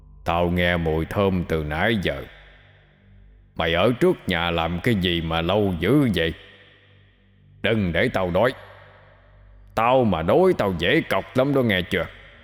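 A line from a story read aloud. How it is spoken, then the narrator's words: Deep gruff voice. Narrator (Vietnamese): Nó cất giọng ồm ồm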